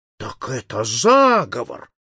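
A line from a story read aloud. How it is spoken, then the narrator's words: Tipsy exclamation. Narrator (Russian): воскликнул Паспарту, уже разгоряченный вином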